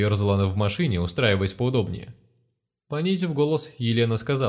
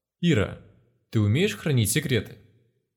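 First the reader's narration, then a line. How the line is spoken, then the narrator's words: Serious voice. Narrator (Russian): Королева вдруг совершенно серьезным голосом произнесла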